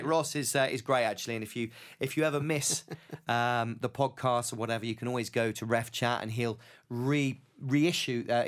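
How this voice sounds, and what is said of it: Somerset English accent. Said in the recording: “you've got a very strange accent? ... I thought you said grey, but you said great. ... That's my Somerset coming out.”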